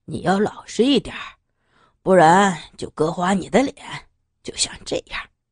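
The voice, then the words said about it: Low, deep menacing voice. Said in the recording (Chinese): “用低沉的声音说完”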